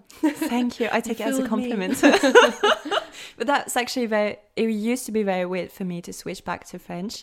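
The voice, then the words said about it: French speaker with strong English accent. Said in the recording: “you have such a like English accent ... these really strong accents ... distinctive to an English speaking place”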